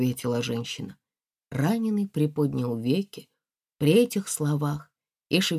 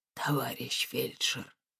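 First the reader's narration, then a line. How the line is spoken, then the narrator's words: Hoarse call. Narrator (Russian): позвал он хрипло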